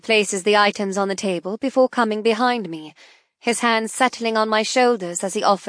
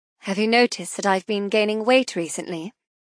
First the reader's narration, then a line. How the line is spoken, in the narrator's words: murmur